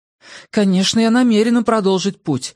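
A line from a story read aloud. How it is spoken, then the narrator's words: Exclaimed. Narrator (Russian): воскликнула Хиллари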